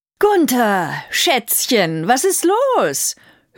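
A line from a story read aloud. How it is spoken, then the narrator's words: Aggressive mocking. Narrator (German): höhnte Brünhilde angriffsbereit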